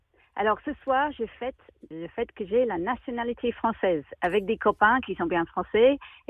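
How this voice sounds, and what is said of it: Slight English accent in French. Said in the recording (French): “on sentait le petit accent anglais”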